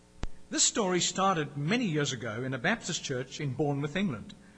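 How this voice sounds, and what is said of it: English accent. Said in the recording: “I love this guy's English accent.”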